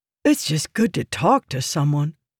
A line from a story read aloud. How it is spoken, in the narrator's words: Merrin said, his voice sounding relieved